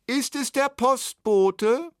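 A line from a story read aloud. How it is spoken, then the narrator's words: Woman calling from another room. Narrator (German): rief eine Frauenstimme aus dem Wohnzimmer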